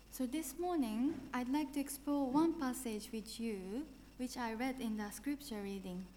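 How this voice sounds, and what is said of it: Japanese accent in English. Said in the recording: “I have a quite interesting accent from Japan”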